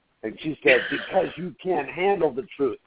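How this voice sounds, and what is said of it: Jack Nicholson impression. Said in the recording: “my best Jack Nicholson impression.”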